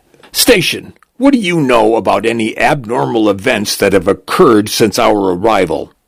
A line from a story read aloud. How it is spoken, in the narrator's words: A tall, thin woman with bruised eyes barks